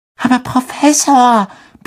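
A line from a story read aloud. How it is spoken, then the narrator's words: Squeaky. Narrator (German): piepste Parvati Patel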